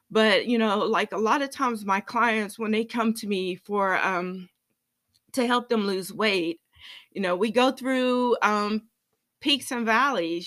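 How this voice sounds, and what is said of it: Slightly shaky, emotional voice. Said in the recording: “my voice is a little shaky this morning because I'm a little emotional.”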